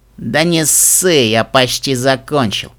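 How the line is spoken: Amused snort. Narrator (Russian): хмыкнул главарь

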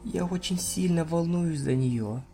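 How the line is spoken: Muttering. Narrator (Russian): пробормотала Флаттершай

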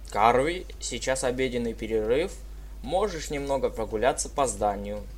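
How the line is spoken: Plain. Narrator (Russian): сказал мистер Фрай

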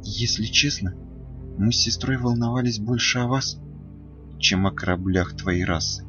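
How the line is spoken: Quiet. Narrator (Russian): тихо ответила Селестия

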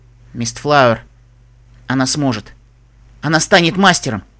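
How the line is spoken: Through gritted teeth. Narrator (Russian): сквозь зубы ответил Себастьян

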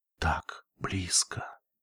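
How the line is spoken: Whisper. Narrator (Russian): прошептал Лайтгрин

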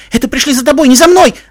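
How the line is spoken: Shout. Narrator (Russian): закричала она

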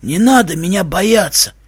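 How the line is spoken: Creepy creature wheeze. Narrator (Russian): Жутким голосом прохрипело существо

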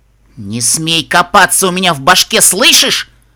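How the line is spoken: Snapping back. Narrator (Russian): огрызнулась воительница

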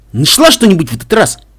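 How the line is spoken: Shout. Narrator (Russian): крикнул мой друг Пегас

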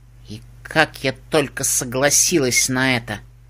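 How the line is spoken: Grumbling. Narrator (Russian): ворчала Лоудстар

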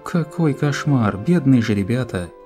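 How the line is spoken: Little vampire sighing. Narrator (Russian): Вздохнула маленькая вампирша

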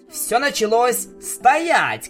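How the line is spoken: Shouted. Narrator (Russian): крикнул я

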